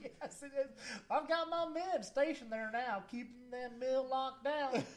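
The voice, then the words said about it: Southern accent. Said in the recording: “the worse his accent gets ... Southern accents”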